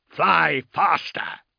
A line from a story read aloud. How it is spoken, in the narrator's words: he snarled at Rosellus